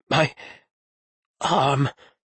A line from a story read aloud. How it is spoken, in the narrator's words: he managed to mumble